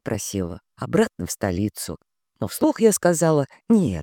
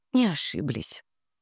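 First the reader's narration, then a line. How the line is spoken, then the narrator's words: Sighing. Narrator (Russian): вздохнула я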